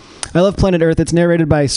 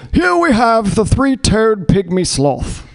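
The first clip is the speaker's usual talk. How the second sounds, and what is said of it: British narrator accent impression. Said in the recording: “Sir David Attenborough, who has an amazing accent. British accents are just incredible. They always sound a little bit smarter than the rest of us”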